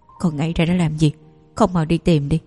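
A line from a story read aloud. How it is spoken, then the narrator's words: Man, cold yet compassionate. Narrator (Vietnamese): lạnh lùng và thâm trầm như ông ta, không khỏi nỗi lòng trắc ẩn, lập tức nói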